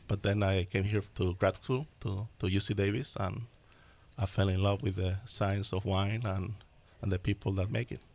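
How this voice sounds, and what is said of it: Slight Spanish-speaker accent. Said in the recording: “there's a little accent in your voice... I was born in Argentina... I grew up in Spain. Therefore, the accent you may notice.”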